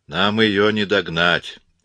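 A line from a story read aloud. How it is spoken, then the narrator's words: Gloomy. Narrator (Russian): мрачно проговорил Коридон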